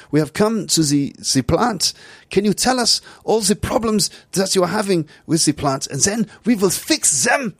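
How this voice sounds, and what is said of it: Put-on stereotypical German accent. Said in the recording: “this is my German accent. ... I'm a pragmatic German guy ... I'm a sort of a stereotype.”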